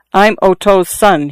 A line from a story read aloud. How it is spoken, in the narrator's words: he answered